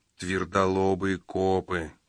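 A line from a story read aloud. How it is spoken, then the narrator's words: Grumbling. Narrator (Russian): проворчал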